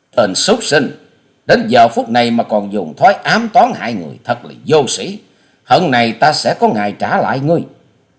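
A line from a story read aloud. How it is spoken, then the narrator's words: Indignant shout. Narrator (Vietnamese): Hoa Sĩ Kiệt quát mắt căm phẫn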